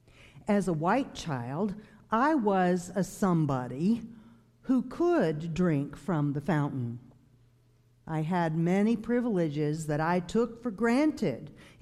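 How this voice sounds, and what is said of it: Southern US accent. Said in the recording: “you may hear from my accent that I'm not a native of Michigan. I grew up in the segregated South”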